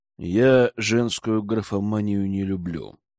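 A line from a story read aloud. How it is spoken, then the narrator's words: Angry, through gritted teeth. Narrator (Russian): процедил, злясь на то, что девушка вмешивается в жизнь сестры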